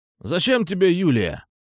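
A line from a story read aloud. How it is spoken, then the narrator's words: Angry exclamation, young man. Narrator (Russian): Зло воскликнул парнишка, похожий на боксера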